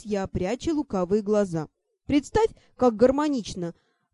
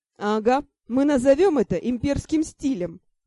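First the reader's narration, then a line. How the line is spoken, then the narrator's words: Laughing. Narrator (Russian): засмеялся Ар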